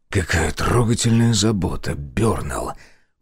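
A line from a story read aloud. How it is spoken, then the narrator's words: Hissing. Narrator (Russian): прошипел я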